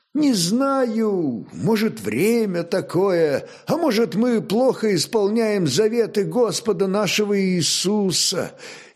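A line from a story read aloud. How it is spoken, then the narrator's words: Uncertain, confused prince. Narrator (Russian): неуверенно ответил чешский князь, очевидно сбитый с толку неожиданным вопросом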